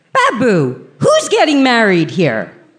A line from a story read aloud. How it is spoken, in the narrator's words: me yelling across the room